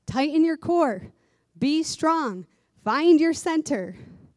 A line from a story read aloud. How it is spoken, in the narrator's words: us teachers yell